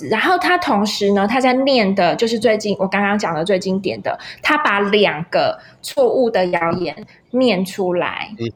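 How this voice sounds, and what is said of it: Taiwanese-accented Mandarin. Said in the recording (Chinese): “他是有点台湾国语，大概跟我的口音有点像，就是台湾国语”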